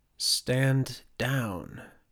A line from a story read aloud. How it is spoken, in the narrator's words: whispered the now sneering Ingfred